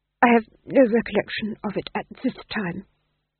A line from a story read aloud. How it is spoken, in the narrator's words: he murmured